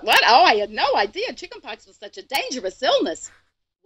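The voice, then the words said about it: Kyle's mom, New York Jewish accent. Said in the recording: “I do Kyle's mom, who has a New York Jewish accent”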